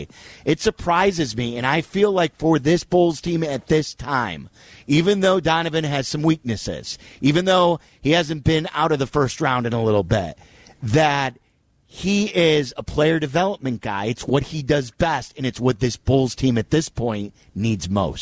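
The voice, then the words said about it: Excited, enthusiastic speaking voice. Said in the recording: “I'm glad to hear the excitement in your voice.”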